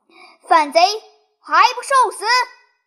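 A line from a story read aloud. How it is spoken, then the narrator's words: Loud shout. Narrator (Chinese): 当先一将乃关云长也，大叫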